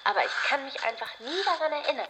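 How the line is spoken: Blurting out, laughing. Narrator (German): stieß lachend hervor

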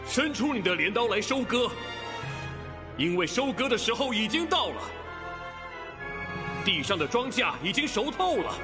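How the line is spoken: Loud proclaiming shout. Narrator (Chinese): 又有一位天使向那坐在云上的大声喊着说

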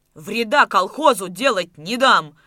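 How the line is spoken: Encouraged shouting. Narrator (Russian): Ободренный приходом Давыдова кричал Майданников

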